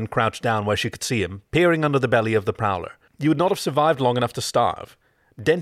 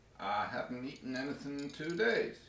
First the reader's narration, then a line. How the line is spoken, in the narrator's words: he mumbled through a mouthful of crumbs